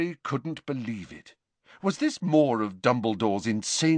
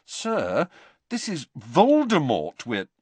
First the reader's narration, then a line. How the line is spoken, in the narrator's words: said Harry, trying to keep his voice reasonable